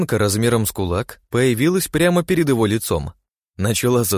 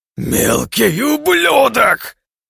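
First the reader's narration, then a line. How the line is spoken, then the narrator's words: Roaring. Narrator (Russian): взревел он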